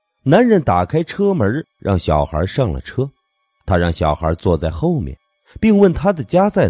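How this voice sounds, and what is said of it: Usual voice. Nothing is said of it.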